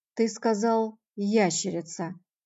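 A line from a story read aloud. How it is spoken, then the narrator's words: Slow deliberate speech. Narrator (Russian): медленно проговорил он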